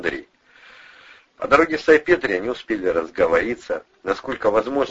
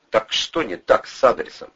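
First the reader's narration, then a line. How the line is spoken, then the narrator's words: Plain. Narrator (Russian): спросил Андрей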